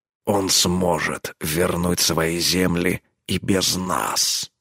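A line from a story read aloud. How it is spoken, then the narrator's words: Growled. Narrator (Russian): рыкнул он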